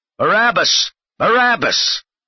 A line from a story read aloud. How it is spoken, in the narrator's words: the chief priests and the Sanhedrin counselors all shouted at the top of their voices